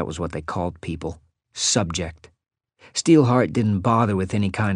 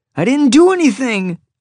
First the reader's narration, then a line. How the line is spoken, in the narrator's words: I whined